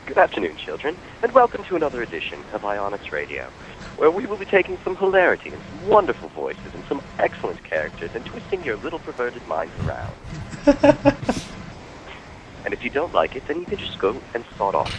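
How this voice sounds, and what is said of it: Put-on British accent. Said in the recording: “I can do the British accent as well.”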